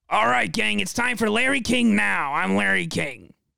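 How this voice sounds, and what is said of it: Clogged-throat imitation of another man's voice. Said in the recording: “my Larry King impression. Excuse me while I not clear my throat, but clog it more ... That's more spot on.”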